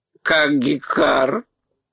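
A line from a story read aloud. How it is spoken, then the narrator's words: Hoarse, calmer bird cry. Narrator (Russian): хрипло какнул птица, но крик ее был уже спокойнее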